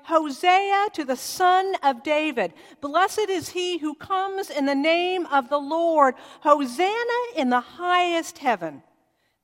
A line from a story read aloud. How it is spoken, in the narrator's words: they began shouting